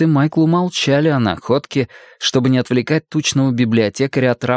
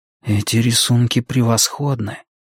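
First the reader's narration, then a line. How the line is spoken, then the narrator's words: Admiring mutter. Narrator (Russian): пробормотал Майкл, восхищаясь эскизами инженера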